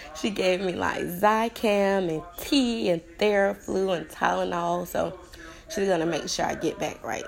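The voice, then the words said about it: Unwell, off-sounding voice. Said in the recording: “Excuse my voice. ... I'm going through a little something here”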